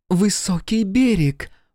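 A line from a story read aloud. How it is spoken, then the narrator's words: Sudden exclamation. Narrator (Russian): воскликнула вдруг девушка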